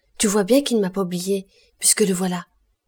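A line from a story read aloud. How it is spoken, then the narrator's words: Exclaiming. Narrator (French): en s'écriant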